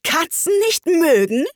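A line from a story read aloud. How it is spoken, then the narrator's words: Shrieking, furious voice. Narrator (German): schrie die Maus mit kreischender, wütender Stimme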